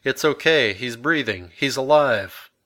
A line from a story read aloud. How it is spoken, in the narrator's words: George, stood over him, shouting to my stepmother